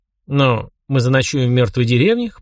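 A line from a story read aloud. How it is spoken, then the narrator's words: Snorting chuckle. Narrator (Russian): хмыкнул я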